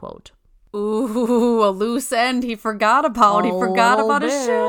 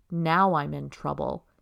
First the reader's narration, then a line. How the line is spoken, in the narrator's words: he whispered